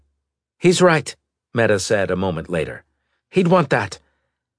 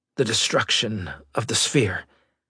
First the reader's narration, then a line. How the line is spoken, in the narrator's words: Maddox whispered, feeling desperately tired